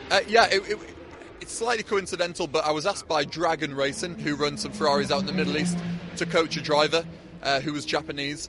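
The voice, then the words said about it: Northeast English accent. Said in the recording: “your northeast accent”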